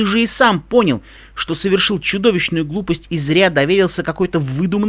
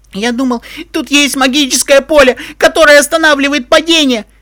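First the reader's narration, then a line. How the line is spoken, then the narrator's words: Unicorn's defensive squeal. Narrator (Russian): визжал оправдывающийся единорог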